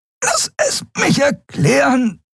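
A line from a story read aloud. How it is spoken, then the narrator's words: Panting. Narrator (German): keuchte Andriel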